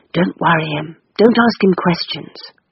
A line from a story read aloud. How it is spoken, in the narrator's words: whispered